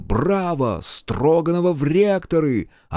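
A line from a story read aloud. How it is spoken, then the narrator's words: Shout from crowd. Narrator (Russian): кто-то даже выкрикнул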